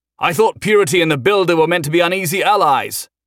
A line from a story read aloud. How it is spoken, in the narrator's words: Humphrey shouted from the roof of the skimmer as it raced through a gulch